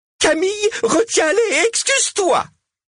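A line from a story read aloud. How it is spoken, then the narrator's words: Shouted again. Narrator (French): cria-t-elle une nouvelle fois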